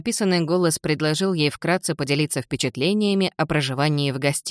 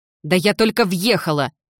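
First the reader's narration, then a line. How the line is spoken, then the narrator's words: Barked. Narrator (Russian): рявкнула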